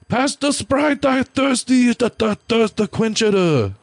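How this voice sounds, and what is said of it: Put-on stereotyped Asian accent. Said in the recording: “do your Asian voice”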